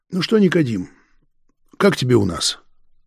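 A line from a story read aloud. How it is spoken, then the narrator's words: Sad smiling question. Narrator (Russian): грустно улыбнулся и спросил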